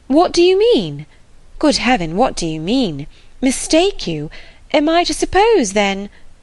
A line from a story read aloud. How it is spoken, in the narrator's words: cried Emma, after a moment's pause